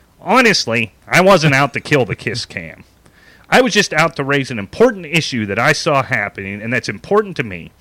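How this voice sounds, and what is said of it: Imitating a complaint letter writer. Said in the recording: “here's where I'm going to try to do his voice.”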